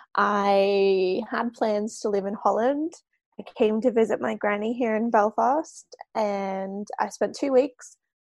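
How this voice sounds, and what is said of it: Australian accent. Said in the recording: “that's not a Belfast accent ... So I'm Australian”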